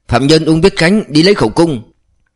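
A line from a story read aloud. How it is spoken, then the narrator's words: Officer shouting. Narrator (Vietnamese): Một thiếu úy an ninh quân đội quát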